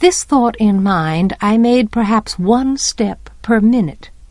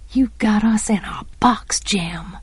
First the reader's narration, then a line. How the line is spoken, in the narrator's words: I muttered